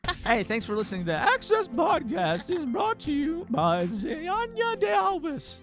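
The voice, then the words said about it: Old-timey British woman accent. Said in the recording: “I only can do it with a British accent. ... I can only do it when I'm doing old-timey woman British accent.”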